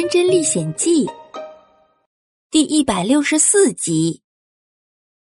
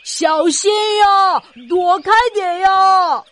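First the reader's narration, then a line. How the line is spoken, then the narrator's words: Little hedgehog shouting. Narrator (Chinese): 是一只领队的小刺猬在喊呢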